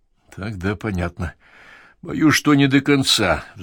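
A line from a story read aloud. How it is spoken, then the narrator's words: Sighing. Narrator (Russian): вздохнул правитель канцелярии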